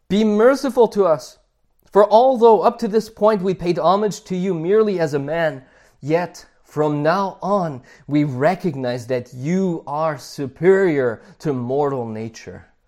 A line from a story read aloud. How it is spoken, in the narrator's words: they cried out